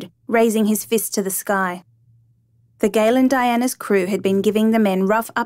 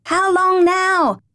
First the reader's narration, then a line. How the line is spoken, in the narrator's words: reduced to shouting across the roaring sea